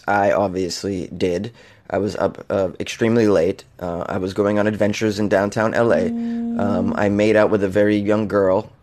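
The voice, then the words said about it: Scratchy, hoarse voice. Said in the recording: “my scratchy ass voice”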